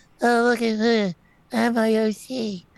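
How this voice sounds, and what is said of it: Mocking childish little-girl voice. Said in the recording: “Why are you talking like you're a 12-year-old girl? ... I talk like I'm a 12-year-old girl.”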